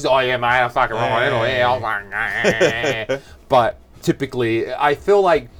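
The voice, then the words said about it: Broad Australian accent. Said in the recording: “I have also scrubbed off my Australian accent for the most part... Get me with some other Aussies.”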